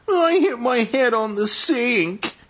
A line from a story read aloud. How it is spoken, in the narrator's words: he wailed